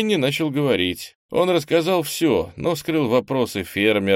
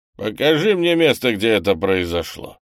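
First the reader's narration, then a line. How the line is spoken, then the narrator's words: Gloomy command. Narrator (Russian): мрачно приказал патриарх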